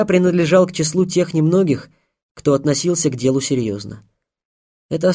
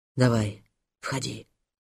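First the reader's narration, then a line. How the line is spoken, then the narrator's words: Whisper. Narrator (Russian): прошептал Морозов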